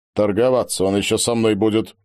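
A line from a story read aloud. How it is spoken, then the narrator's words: Captain's grumble. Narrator (Russian): проворчал капитан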